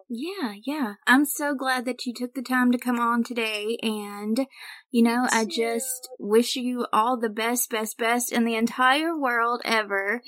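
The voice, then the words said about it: Gentle Southern American accent. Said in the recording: “your sweet little accent. You might have the best accent I've ever heard. It's a very non-offensive Southern accent.”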